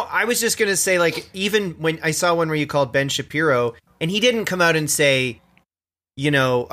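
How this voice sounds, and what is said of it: Usual voice. Nothing is said of it.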